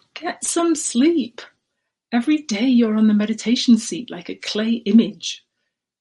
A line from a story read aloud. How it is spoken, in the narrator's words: Yento yelled at him and said